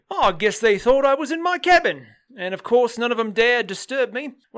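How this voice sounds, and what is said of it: Put-on Australian accent. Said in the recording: “I keep doing an Australian accent. ... I know, but it's great.”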